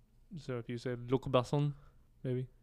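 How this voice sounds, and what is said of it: Bad put-on French accent. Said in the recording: “That was a really terrible French accent”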